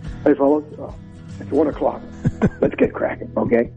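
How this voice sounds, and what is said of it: Much deeper macho voice. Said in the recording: “a much deeper voice, he put on his macho voice.”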